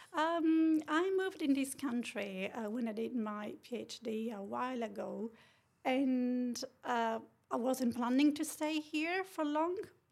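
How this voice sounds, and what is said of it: Italian-accented English. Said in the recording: “your voice has a distinct Italian lift ... my Italian English ... your Italian lilt is beautiful”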